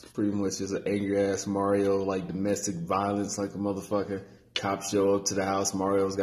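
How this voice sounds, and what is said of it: Usual voice. Nothing is said of it.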